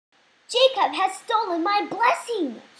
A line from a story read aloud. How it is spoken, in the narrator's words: he cried